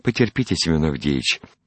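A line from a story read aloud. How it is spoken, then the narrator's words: Timid coaxing. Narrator (Russian): робко уговаривал Иван-дурак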